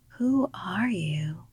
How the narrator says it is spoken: whispered

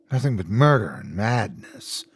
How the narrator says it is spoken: she muttered

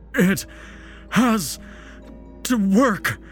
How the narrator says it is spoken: Santa gasped

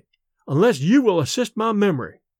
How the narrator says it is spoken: he said kindly

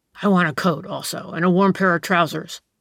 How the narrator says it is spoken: said the stranger in a rough voice

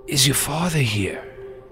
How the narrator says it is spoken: Frankie looked pale, and he says in a weak voice

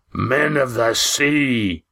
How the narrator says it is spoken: boomed Roaring Jack

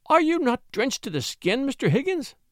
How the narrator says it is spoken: cried Mrs

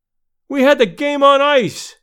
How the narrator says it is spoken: one cried

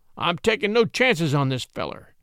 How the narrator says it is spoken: said Brown grimly

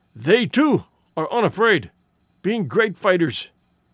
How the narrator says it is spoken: he wheezed

